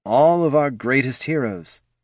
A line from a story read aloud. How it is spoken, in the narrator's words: the king muttered